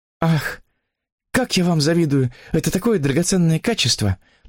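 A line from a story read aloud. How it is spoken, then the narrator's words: Impulsive exclamation, interrupting. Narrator (Russian): Порывисто воскликнула она, прервав его тираду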